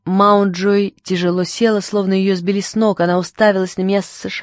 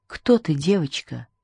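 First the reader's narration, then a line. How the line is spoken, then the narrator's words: Whisper. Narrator (Russian): прошептала она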